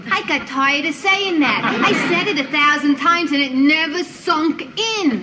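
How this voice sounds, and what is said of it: Bronx New York accent. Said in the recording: “what an accent ... She's from the Bronx, up near Grand Concourse, the Bronx. And she's got a great voice.”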